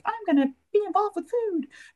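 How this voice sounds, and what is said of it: Small child's voice. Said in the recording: “That wasn't an impression of anybody. That was my small person impression.”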